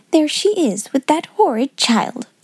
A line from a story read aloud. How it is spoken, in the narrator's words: exclaimed Lavinia in a whisper